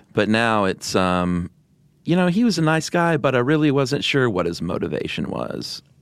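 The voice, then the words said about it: Valley Girl upspeak voice. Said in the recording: “the old Valley Girl thing, which is upspeak ... great impression. That's because it was dead on. ... you had pigtails just now ... you were doing a different voice”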